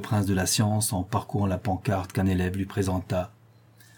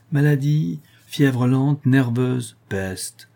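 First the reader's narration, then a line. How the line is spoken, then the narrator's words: Deeply satisfied exclamation. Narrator (French): s'écria le docteur, avec une expression de satisfaction profonde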